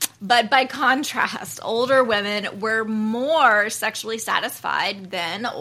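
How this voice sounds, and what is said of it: Usual voice. Nothing is said of it.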